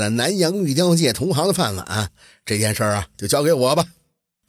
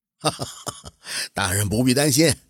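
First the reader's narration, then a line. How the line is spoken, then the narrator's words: Calm smile. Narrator (Chinese): 高金宝淡然的一笑，说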